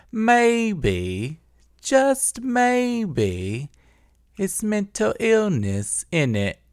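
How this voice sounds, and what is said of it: Put-on British accent. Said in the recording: “this fucking British accent”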